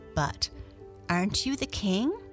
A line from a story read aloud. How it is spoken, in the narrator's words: She looked at him earnestly and said